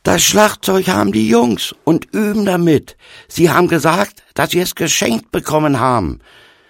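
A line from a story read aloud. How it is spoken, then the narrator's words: Calling out. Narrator (German): rief zu ihm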